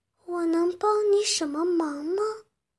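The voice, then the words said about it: Weak, feeble voice. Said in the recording (Chinese): “用虚弱的声音说”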